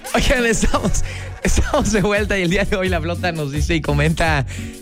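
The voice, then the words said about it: Formal institutional announcer voice. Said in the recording (Spanish): “quise hacer mi voz así como la institucional ... mi imitación de la voz institucional”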